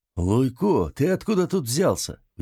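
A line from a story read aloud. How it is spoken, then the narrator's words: Surprised question. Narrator (Russian): удивленным голосом спросил Перо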